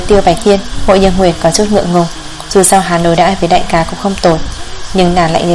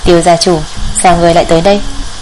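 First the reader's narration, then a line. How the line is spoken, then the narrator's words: Soft laughing voice. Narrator (Vietnamese): khẽ cười nói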